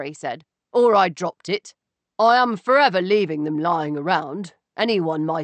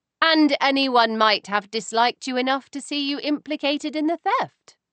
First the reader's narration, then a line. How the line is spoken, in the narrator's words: I said sweetly